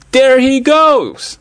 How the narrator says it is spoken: Tess yelled

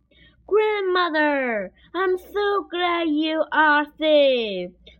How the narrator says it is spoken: cried Little Red Riding Hood

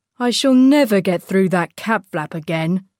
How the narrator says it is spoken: sighed Teddy

